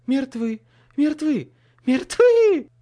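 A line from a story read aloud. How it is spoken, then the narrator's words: Louder shriek. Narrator (Russian): завизжала еще громче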